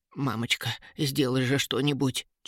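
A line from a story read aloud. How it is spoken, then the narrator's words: Faint whisper. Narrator (Russian): Чуть слышно шептал он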